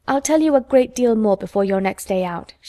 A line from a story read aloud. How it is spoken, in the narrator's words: she said